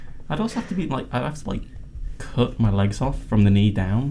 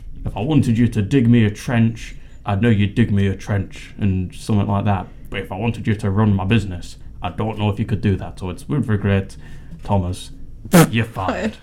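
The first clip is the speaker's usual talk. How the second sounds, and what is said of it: Lord Sugar impression. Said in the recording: “Was that not a good impression? ... That was amazing. Outstanding. ... a better Lord Sugar impression”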